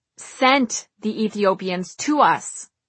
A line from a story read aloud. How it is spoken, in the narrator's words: Forgetting the chit-chat, his voice suddenly spewing rage